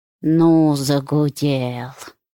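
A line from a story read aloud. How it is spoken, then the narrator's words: Grumbling. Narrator (Russian): проворчал Зотов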